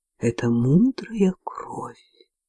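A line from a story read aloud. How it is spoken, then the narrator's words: Mysterious whisper. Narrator (Russian): таинственно шептала она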